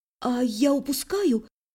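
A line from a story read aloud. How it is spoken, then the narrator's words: Whisper. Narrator (Russian): шепнула в темноту ночи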